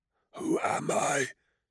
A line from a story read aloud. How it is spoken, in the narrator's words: he whispered, sorrow and fear beneath the words